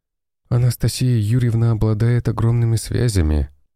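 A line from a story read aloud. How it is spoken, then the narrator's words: Sighing. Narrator (Russian): вздохнул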